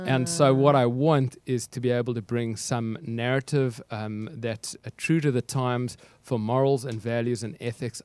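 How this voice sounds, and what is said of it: South African accent. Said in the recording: “your accent does not sound like Colorado ... Cape Town, South Africa”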